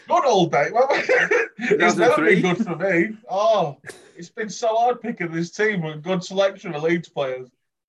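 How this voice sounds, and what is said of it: Strong Yorkshire accent. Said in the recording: “the most Yorkshire you can ever sound as well ... This is pure Yorkshire. ... your accent gives you away”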